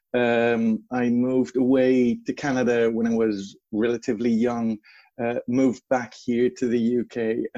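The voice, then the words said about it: Non-British accent. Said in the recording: “though you would not suspect it from my accent, I actually was born here in the UK ... That's hence my accent.”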